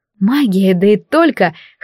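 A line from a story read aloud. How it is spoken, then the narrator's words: Joyful chuckle. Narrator (Russian): хохотнула я, преисполненная радости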